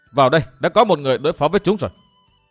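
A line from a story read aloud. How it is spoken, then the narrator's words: Low commanding bark. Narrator (Vietnamese): Thủy Minh Hoàn trầm giọng quát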